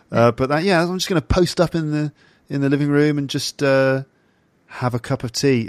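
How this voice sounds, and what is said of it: English accent. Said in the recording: “it sounds so ridiculous when I say it in my English accent... it doesn't work in my English voice”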